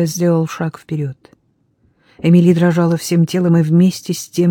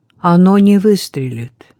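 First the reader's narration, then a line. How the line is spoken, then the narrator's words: Calm. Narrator (Russian): спокойно сказал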